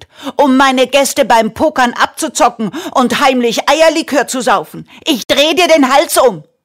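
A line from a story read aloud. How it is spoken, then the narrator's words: Furious woman screaming. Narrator (German): schrie die Frau voller Wut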